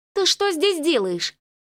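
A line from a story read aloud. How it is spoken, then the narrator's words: Angry question. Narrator (Russian): сердито спросила она у Десса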